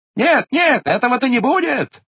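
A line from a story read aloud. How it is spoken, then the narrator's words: Shouting. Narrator (Russian): кричала Хивря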